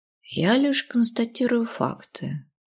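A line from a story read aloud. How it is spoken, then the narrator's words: Purring. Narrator (Russian): мурлыкнул кот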